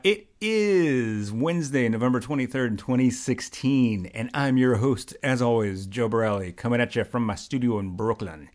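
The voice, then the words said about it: Radio announcer voice. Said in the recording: “that's my best radio voice”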